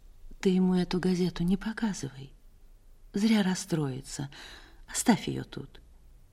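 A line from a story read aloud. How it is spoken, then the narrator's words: Quiet. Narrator (Russian): Она тихо сказала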